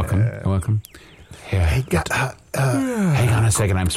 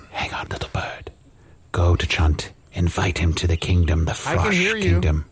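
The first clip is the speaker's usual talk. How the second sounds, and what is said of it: Whispering. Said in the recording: “I'm whispering to a bird.”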